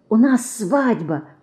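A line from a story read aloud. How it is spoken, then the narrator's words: Whisper. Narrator (Russian): шепнула она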